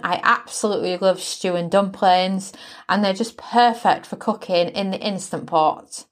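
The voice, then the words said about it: British accent. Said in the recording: “As you can probably tell by my accent, I'm British born.”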